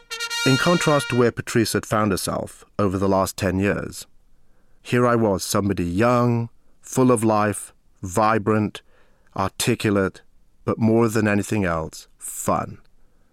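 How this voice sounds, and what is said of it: English accent. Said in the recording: “The accent's a great starter. You could definitely tell I wasn't from around here. I'd grown up in England.”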